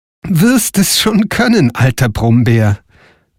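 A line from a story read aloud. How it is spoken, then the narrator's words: Laughing answer. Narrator (German): antwortete Frau Holle lachend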